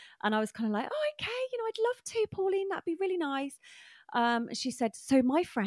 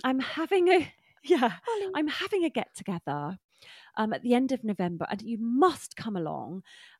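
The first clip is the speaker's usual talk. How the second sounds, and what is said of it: Glamorous, well-spoken elderly woman's voice. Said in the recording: “glamorous and lovely and well spoken ... great accent”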